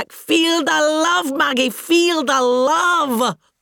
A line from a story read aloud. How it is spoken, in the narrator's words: I shouted back